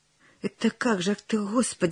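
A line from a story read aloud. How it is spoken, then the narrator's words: Confused mumbling. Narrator (Russian): растерянно бормотал Прошка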